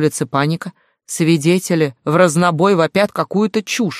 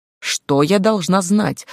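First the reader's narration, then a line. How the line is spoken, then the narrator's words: Irritated question. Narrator (Russian): раздраженно уточнила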